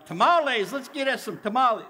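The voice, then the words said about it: Playful Texan accent. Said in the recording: “Sounded a little Texan”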